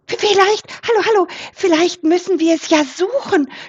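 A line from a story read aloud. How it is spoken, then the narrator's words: Very excited suggestion. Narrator (German): schlug Elli Wildgans ganz aufgeregt vor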